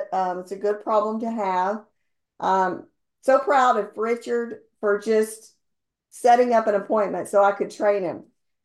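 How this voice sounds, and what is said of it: Hoarse, strained voice. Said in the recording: “Excuse me if I start coughing ... talking my head off to everybody, so losing my voice a little bit”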